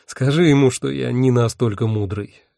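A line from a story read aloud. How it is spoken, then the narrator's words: Sighing. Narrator (Russian): вздохнул я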